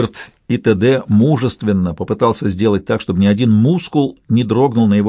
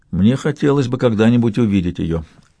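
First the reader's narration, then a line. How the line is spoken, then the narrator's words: Calm. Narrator (Russian): сказал он спокойно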